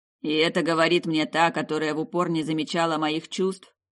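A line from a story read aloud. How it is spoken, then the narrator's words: Sulky boyish grumbling. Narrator (Russian): Проворчал в ответ, совсем как маленький мальчик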